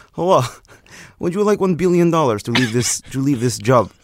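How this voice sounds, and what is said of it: Imitated Russian accent. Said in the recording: “Do your Russia impersonation”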